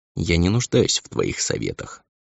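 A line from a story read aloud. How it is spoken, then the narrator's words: Calm, almost indifferent. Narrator (Russian): сказала она спокойно, почти равнодушно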